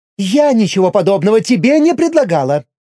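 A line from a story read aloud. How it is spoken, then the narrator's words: Female exclamation. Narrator (Russian): воскликнула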